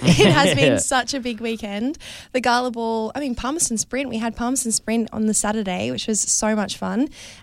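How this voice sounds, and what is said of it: Partly lost, strained voice. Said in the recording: “as you can tell, I've kind of lost my voice a little bit”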